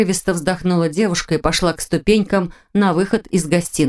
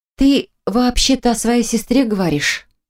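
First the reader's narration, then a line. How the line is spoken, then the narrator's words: Muffled, hollow reply. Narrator (Russian): глухо отозвалась Марина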